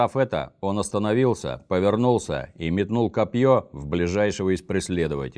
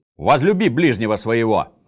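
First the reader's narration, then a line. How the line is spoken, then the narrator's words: Barked command. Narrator (Russian): рявкнул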